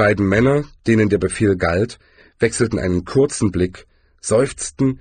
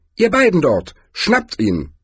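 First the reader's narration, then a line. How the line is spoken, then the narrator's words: Suspicious call. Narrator (German): argwöhnisch rief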